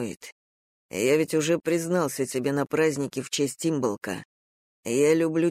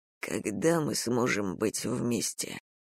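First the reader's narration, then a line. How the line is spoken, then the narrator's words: Whispered. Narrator (Russian): прошептал он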